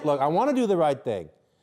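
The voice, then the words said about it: Raised, loud voice. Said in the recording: “raising my voice ... raise your voice”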